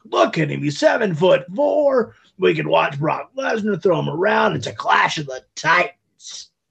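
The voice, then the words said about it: Imitates another person's voice. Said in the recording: “my Vince impression”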